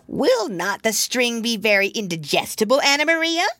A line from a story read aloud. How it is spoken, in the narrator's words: cried Samuel Whiskers